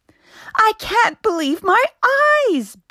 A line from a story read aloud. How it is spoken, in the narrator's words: Benny shouted